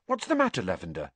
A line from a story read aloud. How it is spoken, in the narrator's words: said Hermione anxiously